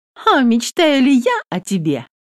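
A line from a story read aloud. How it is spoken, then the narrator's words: Cheerful question. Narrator (Russian): весело спрашивает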